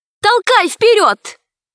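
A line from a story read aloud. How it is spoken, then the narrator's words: Shout. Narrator (Russian): Алиса крикнула Герасику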